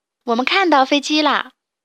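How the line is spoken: Shouted together. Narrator (Chinese): 当当和西西喊道

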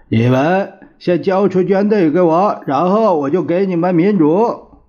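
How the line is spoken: Repeated shouting. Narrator (Chinese): 蒋介石便对延安不断的大叫

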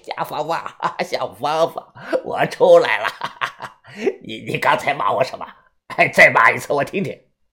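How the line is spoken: Drawn-out laughing voice. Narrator (Chinese): 他 拖长了声音笑了

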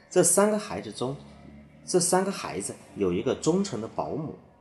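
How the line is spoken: Sighing. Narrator (Chinese): 温迪叹了一口气，接着说

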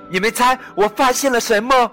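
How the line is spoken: Shouting. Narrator (Chinese): 他就大叫起来

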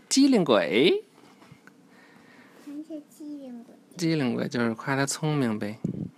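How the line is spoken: Quiet praise. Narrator (Chinese): 尼克小声称赞朱迪

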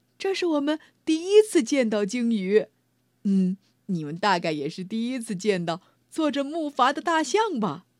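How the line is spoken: Laughing. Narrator (Chinese): 艾玛笑着说

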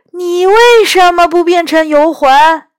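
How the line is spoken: Shouting. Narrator (Chinese): 第二个声音大叫

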